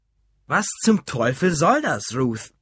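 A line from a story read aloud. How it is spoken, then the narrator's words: Loud. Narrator (German): sagte er so laut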